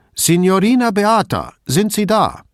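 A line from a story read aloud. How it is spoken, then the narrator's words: Calling louder again. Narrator (German): rief noch einmal lauter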